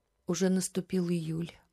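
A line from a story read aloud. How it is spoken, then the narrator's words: Sighing. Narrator (Russian): вздохнула Татьяна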